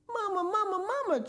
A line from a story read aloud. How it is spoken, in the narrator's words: chirped Philip